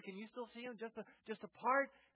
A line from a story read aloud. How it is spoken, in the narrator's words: the voice of these angels